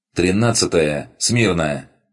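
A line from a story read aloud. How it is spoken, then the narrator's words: Woman barking order. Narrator (Russian): рявкнула стоящая в стороне девушка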